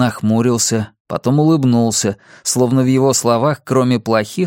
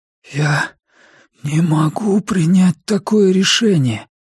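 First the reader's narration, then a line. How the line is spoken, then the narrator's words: Hoarse wheeze. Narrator (Russian): просипел я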